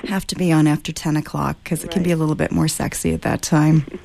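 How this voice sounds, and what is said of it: Soothing low voice with slight rasp. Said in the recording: “you have the best radio voice ever ... You're sending me to sleep in a good way ... it's my bedroom voice, but it's got a little bit of the rasp”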